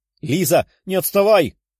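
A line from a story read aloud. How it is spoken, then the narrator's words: Female shout. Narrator (Russian): кричала Даша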